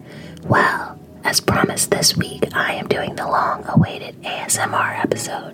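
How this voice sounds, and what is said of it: Whispering. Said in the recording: “You may have noticed I'm whispering. ... whispering is the only option”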